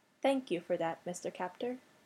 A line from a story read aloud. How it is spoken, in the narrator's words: Teresi said, very quietly